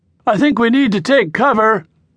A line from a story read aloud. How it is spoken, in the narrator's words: Ryan yelled, but the wind was blowing so hard now that it was masked